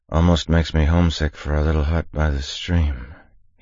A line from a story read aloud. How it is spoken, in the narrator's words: said, the last of his words slurring as he drifted into sleep